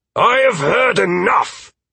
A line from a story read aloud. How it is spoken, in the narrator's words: Alduin interrupted with a shout, his face bright red with anger